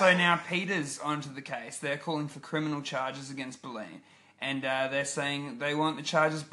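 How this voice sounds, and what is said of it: Usual voice. Nothing is said of it.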